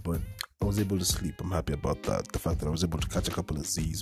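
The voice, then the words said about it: Groggy, deep throaty voice. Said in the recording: “my voice is still kind of groggy, still very bass at the back of my throat”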